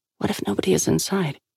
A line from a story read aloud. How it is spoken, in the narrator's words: Sal murmured